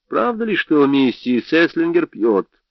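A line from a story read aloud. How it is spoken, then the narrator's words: Plain. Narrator (Russian): спросил я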